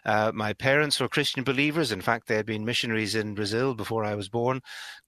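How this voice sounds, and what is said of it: Northern Irish Belfast accent. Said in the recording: “as you can possibly tell from the accent, I'm a Belfast boy. I grew up in Northern Ireland.”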